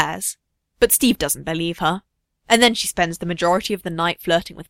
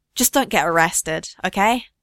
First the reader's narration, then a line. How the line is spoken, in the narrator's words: Bucky sighs, resigned